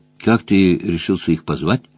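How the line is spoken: Quiet, spellbound question. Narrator (Russian): спросил он Джон Тома тихо, завороженно

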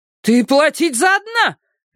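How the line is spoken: Angry shout. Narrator (Russian): гневно прокричала мама

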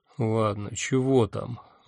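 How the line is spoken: Sighing. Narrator (Russian): вздохнул я

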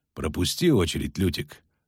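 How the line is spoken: Cold interruption. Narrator (Russian): холодно прервал ведьмак

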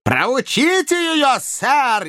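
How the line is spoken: Shouting even louder. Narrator (Russian): еще громче крикнул Слерк

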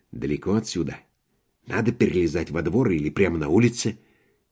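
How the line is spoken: Intimate whisper in ear. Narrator (Russian): телеграфист Ходоунский шепнув ему на ухо интимный вопрос

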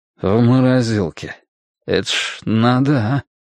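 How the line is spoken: Confused mutter. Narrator (Russian): растерянно пробормотал Блад

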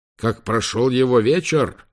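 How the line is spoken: Yelling into phone. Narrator (Russian): заорал Лэнгдон в трубку

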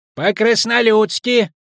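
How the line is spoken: Squeaked. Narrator (Russian): пропищали скобяные изделия

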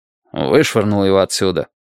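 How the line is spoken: Gloomy reply. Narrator (Russian): мрачно ответил адвокат

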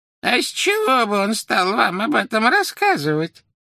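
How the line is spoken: Creaky voice. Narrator (Russian): проскрипела Мюриэль

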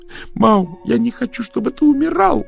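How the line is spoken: Wailing scream. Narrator (Russian): завопила Дафна

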